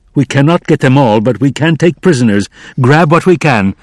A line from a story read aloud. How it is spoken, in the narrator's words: he shouted again